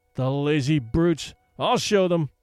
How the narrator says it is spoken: he cried

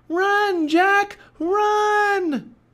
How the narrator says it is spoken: cried Annie

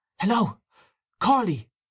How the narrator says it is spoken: He called out

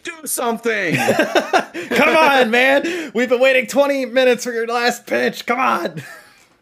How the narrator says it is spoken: the thing to yell about is

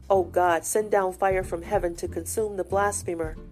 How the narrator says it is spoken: said Lawson

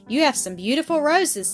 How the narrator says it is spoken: he exclaimed

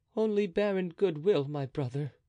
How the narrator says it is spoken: replied Louis in a melancholy tone

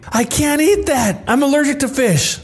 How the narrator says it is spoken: Me, loudly

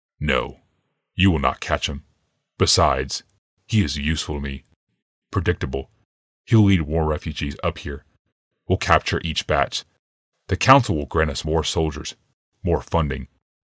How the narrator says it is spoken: Yawmoth said grimly

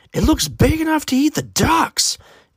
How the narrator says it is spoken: Aiden's aunt exclaimed

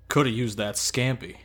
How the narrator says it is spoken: he grumbled

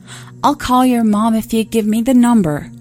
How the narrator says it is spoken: I shouted through the door

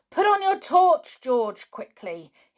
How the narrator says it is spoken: yelled

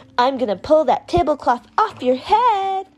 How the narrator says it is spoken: a boy yelling

